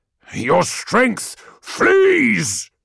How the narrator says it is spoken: roared

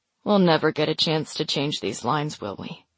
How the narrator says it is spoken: Vale asks with a sigh

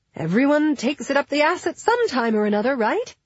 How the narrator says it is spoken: She said brightly

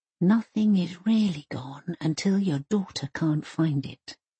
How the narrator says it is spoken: she whispers into Mum's ear

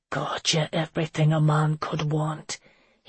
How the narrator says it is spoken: he whispered against her skin

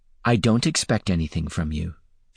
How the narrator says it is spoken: she said quickly

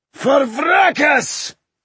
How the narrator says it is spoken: He bellowed

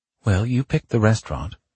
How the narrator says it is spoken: said, smiling sweetly

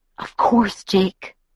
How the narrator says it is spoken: I whispered after a long minute of silence

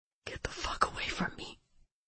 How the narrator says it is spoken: she whispered, as her eyes widened in shock

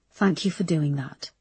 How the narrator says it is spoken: said Erica softly

